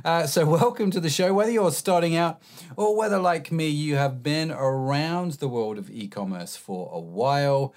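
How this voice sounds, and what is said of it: Husky voice, recovering from cold. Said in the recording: “forgive my voice. I am slightly recovering from man flu ... we are in a husky voice today”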